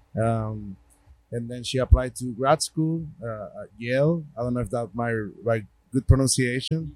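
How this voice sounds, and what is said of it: Puerto Rican accent. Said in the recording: “my Puerto Rican accent,”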